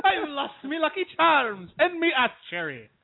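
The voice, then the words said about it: Put-on Irish accent. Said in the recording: “he's British. ... He's not British. He's Irish. ... The accent.”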